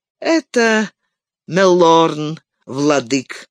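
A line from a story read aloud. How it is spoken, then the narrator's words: Plain. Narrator (Russian): сказал Хелдир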